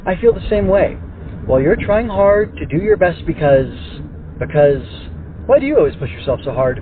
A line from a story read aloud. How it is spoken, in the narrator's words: Babel exclaimed